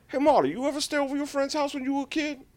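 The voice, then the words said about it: Bad impression of another person's voice. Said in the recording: “worst Tracy Morgan impression”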